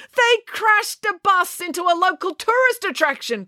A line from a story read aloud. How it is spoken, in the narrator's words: cried Mr